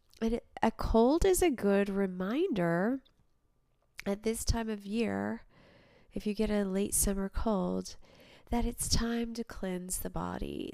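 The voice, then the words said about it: Congested voice from a cold. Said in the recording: “I have a little bit of a cold,”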